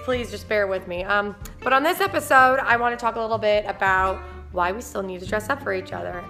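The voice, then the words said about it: Squeaky, strained lost voice. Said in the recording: “I lost my voice the other day... sorry for my squeaky voice the next couple of days”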